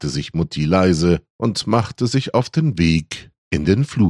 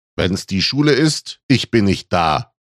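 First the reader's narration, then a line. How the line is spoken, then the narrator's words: Annoyed call after someone. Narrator (German): rief Papi ihr genervt hinterher, immer noch traumatisiert vom Elternsprechtag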